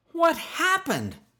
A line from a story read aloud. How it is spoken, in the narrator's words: snapped Skeeter